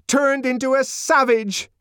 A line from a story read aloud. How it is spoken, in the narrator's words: she shouted